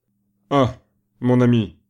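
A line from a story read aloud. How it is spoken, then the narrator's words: Exclaiming. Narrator (French): s'écria Foulogne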